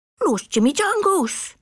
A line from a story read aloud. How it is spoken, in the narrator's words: exclaimed the gatito